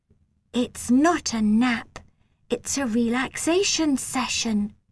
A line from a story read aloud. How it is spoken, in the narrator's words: she whispered